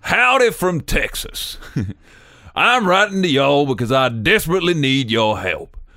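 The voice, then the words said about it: Put-on Texan accent. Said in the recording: “Should I read it in a Texan accent? ... Yes.”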